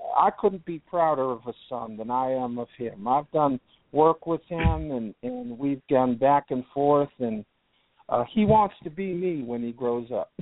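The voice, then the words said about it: Southern American accent. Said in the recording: “You seem to have developed a southern accent since we last spoke”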